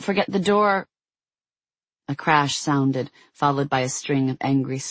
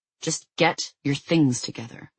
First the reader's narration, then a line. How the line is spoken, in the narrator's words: Jason growled